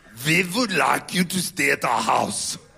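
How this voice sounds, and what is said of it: Irish accent sounding like Arnold Schwarzenegger. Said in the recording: “I do a pretty good Irish accent... My only accent I do, it always sounds like Arnold Schwarzenegger.”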